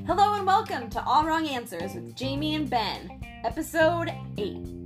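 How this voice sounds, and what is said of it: Announcer-style radio host voice. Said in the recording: “We are a morning talk drive time radio now, apparently... Was that a good radio voice?”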